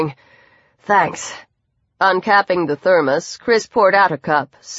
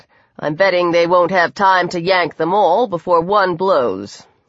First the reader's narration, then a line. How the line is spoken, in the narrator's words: he said, amazed at how smoothly the lie flowed from his tongue